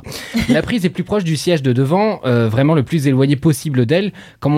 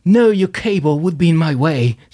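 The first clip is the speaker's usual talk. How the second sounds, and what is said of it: Weak attempt at American accent. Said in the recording (French): “Je sais pas faire l'accent américain, laissez-moi.”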